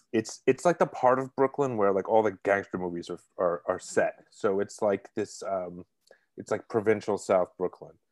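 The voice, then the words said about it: Brooklyn accent. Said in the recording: “I'm originally from Brooklyn, if you can't tell by the accent.”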